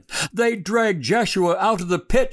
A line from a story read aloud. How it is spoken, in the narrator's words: she cried